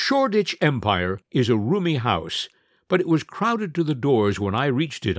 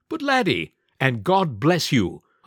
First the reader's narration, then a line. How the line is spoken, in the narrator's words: I added firmly